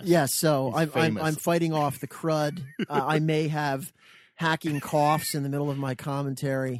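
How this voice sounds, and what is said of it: Gravelly, rough sick voice. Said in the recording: “He's in a weakened form. ... You can probably tell from my voice is, I don't even know what it's going to sound like. Some kind of crypt keeper. ... It's probably a better radio voice than my normal voice. ... a guy on there with a gravelly voice like you got right now”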